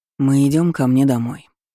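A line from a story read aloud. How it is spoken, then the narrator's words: Tired, yawning explanation. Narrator (Russian): пояснил Ролан, устало прикрывая зевок ладонью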